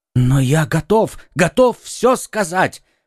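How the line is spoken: Exclamation. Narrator (Russian): воскликнул Бонасье

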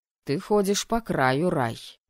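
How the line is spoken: Irritated, curt. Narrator (Russian): раздраженно бросил ректор

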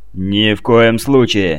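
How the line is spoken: Barked. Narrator (Russian): рявкнул Витковский

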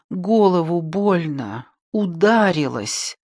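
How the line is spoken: Moaning in pain. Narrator (Russian): простонала

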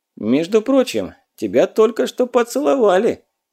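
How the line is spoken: Snide guffaw. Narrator (Russian): ехидно заржал Задов

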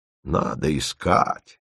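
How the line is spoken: Gloomy mocking mimicry. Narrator (Russian): уныло передразнил Подмухин

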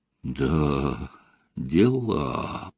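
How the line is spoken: Drawn-out drawl. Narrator (Russian): протянул Костя

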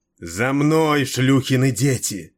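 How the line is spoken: Roared. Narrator (Russian): проревела она

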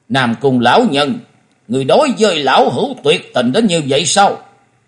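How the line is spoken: Trembling with anger. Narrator (Vietnamese): Hầu tẩu Tào Di tức giận đến toàn thân rung lên bần bật nói

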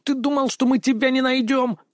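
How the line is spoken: Squeaky voice faking gruffness. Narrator (Russian): Стараясь придать грубости своему голосу, пропищал бандит

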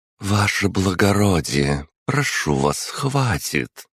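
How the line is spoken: Soft but steely. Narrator (Russian): произнесла дворянка на первый взгляд будто мягко, однако же в ее голосе явственно слышались стальные нотки

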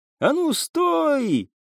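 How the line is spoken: Shout drowned by roar. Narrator (Russian): крикнул тот, но его голос потонул в реве пожара

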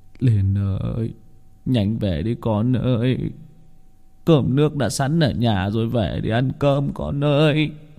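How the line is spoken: Old man muttering to himself. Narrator (Vietnamese): ông tự lẩm bẩm, động viên mình

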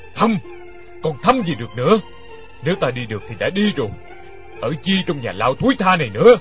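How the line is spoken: Roaring. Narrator (Vietnamese): Đinh Điển gầm lên

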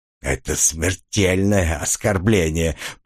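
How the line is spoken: Hiss through teeth. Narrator (Russian): прошипел сквозь зубы

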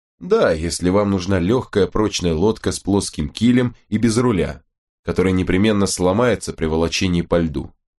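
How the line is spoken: Plain. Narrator (Russian): сказал капитан Фиджеймс

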